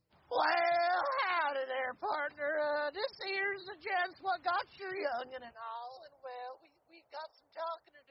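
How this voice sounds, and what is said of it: Exaggerated old prospector Southern accent. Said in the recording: “Just do a southern accent ... Southern, not old prospector.”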